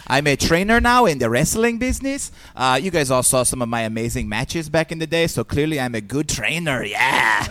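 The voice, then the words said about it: Exaggerated Italian accent. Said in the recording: “Very Italian accent-y. ... this gentleman here sounds a little bit like an Italian Borat”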